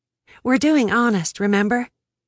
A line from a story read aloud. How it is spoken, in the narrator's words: I sighed